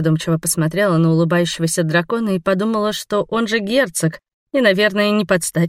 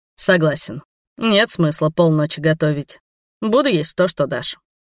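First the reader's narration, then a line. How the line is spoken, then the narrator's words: Amused snort. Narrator (Russian): хмыкнул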